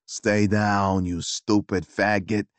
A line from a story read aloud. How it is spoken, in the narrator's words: he snarled